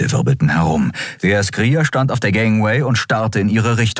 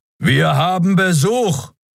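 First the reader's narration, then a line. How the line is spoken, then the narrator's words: Roaring interruption. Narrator (German): Kerus Brüllen schnitt ihr das Wort ab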